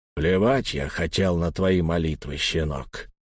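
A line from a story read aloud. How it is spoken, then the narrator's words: Quiet. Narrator (Russian): тихо сказал Лаум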